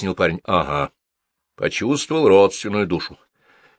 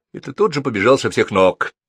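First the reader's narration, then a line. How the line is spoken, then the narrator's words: Scoffing snort. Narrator (Russian): хмыкнул полковник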